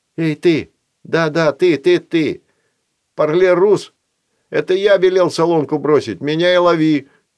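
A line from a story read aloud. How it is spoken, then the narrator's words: Shout. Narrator (Russian): крикнул Филат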